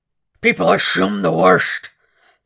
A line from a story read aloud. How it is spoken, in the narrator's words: Dolarahyde said, his voice calming momentarily from its guttural roar